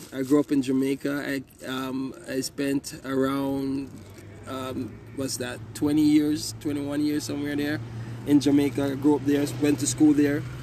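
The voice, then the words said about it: Jamaican accent. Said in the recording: “We can hear your accent. ... I'm Jamaican.”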